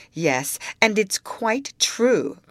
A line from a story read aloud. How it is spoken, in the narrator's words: cried Matilda